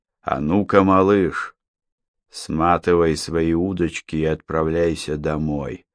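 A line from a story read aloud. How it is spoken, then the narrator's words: Hoarse boatswain. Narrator (Russian): прохрипел боцман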